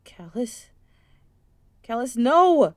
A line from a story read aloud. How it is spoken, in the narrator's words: Curvis shouted